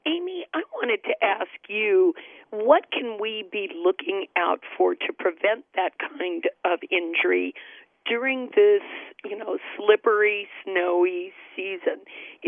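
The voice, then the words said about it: Strained voice, losing her voice. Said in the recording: “My voice. I'm losing my voice these days.”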